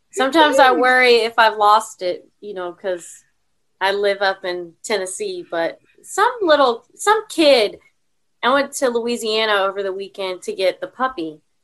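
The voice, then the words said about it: Speaks with a noticeable accent. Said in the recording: “I love the accent, I have to say. I could sit here and listen to you talk all day.”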